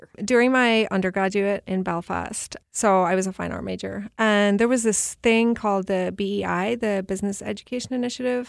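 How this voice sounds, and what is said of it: Non-American accent. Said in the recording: “based off your accent, we all know you're not from America”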